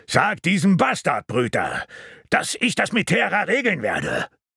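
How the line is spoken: Calling out. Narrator (German): rief Bran

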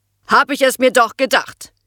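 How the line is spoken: Harsh thundering voice. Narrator (German): donnerte die harte Stimme von Ute Kasukat über den Schulhof

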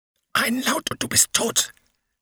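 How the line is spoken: Man hissing. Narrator (German): zischte einer der Männer

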